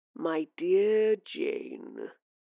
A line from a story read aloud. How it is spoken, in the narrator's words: it purred